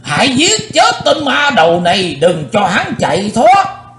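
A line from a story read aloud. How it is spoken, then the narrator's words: Shouting old man. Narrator (Vietnamese): Cùng trong tiếng thét đó, lão râu ria sầm soàn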